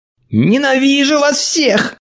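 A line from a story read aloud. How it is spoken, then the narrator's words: Nervous shout. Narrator (Russian): нервно закричала она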